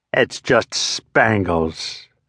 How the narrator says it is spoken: fairly growled

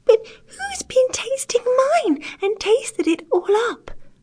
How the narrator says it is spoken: cried the poor little teeny-tiny bear in a teeny-tiny voice, with the tears running down his teeny-tiny face

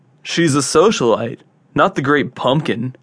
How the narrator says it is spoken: sighs Joey

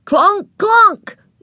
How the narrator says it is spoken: yelled Ramona

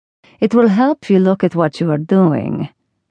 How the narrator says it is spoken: commented, rather harshly

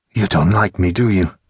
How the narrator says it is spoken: sighed

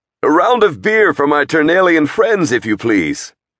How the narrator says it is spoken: he called to the innkeeper, his voice still too loud, his tone too familiar by half

